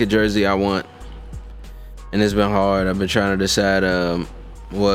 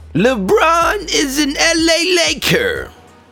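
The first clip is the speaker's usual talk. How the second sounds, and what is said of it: Imitates a sports announcer voice. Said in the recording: “Is that like your announcer like yeah. impression? ... That's pretty good.”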